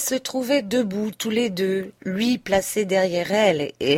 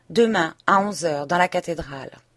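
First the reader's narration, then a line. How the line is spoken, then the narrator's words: Curt. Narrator (French): d'un ton bref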